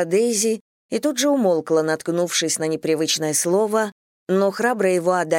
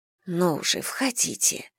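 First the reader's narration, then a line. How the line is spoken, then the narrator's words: Whisper. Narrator (Russian): шепнула миссис Бантинг посетителю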